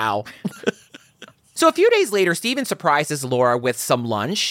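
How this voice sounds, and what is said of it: Usual voice. Nothing is said of it.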